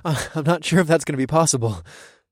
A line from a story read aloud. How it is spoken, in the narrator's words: I panted